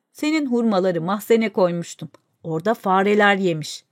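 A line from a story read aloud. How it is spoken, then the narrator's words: Plain. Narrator (Turkish): dedi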